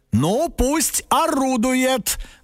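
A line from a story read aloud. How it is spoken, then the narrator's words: Loud, as if to himself. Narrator (Russian): громко сказал папа, как будто бы сам себе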